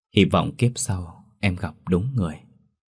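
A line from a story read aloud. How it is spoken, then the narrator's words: Soft. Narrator (Vietnamese): Trần Minh nói khẽ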